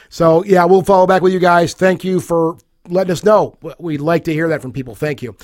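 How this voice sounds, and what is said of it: Hoarse, worn-out voice. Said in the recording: “My voice is shot. I'm burned out here. I've been battling a cold for the last week now”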